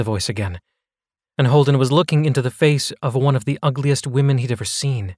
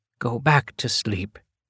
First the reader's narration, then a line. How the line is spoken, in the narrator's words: whispered in his ear